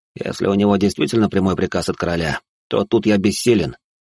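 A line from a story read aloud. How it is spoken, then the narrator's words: Said with a sigh. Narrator (Russian): произнес и вздохнул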